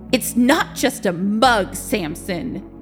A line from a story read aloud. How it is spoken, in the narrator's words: Victor said angrily